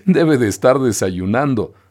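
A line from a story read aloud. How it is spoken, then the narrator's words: Laughing reply. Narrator (Spanish): respondió riendo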